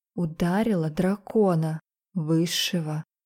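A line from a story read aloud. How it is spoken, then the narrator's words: Whisper. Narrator (Russian): прошептала я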